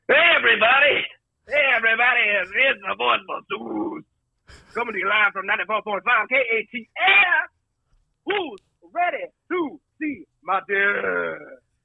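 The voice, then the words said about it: Put-on radio DJ voice. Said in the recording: “Here's what my radio voice sounds like”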